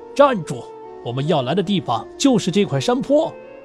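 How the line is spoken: Loud commanding shout. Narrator (Chinese): 首领高声喊道

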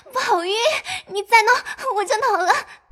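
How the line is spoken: Breathless laughter. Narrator (Chinese): 黛玉笑得喘不过气来，口里说

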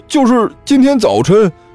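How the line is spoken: Woeful whine. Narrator (Chinese): 那名员工哭丧着脸说道

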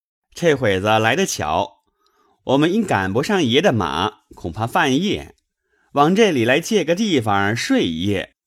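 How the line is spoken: Laughing. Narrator (Chinese): 喜儿、寿儿笑道

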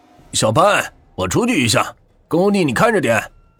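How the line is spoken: Calling out. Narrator (Chinese): 他叫了一声

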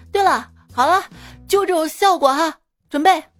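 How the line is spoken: Sudden loud call. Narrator (Chinese): 导演突然大声说

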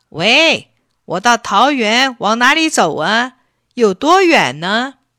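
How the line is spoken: Calling out repeatedly. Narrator (Chinese): 他喊了好几声

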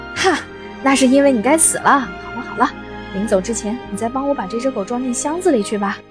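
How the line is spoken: Laughing loudly. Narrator (Chinese): 酒馆老板哈哈大笑说

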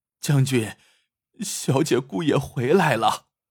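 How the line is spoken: Servant crying. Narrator (Chinese): 下人哭着来报

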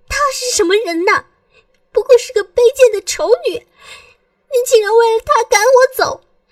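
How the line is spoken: Sobbing, crying out. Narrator (Chinese): 尹天雪的眼泪终于没有忍住，哇的一下哭了出来，哭喊道

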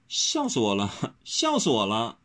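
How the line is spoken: Stifled laughter, pained. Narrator (Chinese): 温柔强忍笑意，捂着腰叫痛不已，只说

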